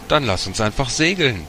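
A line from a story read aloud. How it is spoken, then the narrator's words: Laughing call. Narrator (German): Alba lachte, rief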